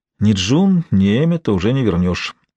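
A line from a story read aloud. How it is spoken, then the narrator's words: Sigh. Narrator (Russian): вздохнул Лоренс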